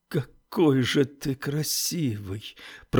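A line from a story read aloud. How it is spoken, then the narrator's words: Flirtatious mutter. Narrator (Russian): пробормотал Оуэн тем же тоном, каким разговаривал с хорошенькими мальчиками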